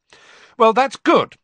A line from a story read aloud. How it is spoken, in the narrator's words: said Harry loudly, his temper getting the better of him